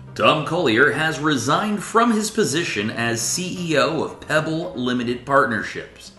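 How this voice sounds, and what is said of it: News broadcaster voice. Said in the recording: “in my broadcaster voice.”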